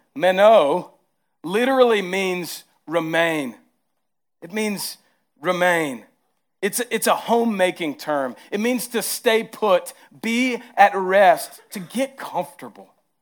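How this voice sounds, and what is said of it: Heavy Southern American accent. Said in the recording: “my southern accent comes out heavy”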